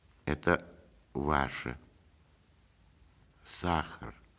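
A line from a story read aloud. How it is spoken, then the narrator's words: Quiet, holding back tears. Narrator (Russian): тихо сказала она и отвернулась, чтобы скрыть слезы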